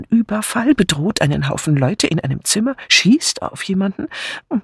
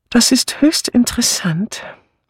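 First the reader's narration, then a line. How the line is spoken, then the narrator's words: With a slight sigh. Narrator (German): erklärte mit einem leichten Seufzer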